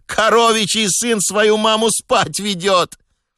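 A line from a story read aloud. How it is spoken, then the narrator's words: Boy's wild, delighted shriek. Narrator (Russian): один мальчишка пришел в такой восторг, что дико взвизгнул и провозгласил на всю улицу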